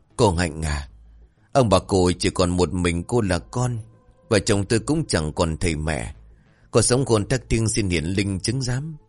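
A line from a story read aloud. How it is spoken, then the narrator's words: Tearful trembling whisper. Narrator (Vietnamese): chị Liều cũng run rẩy, nước mắt rơi, miệng thì thầm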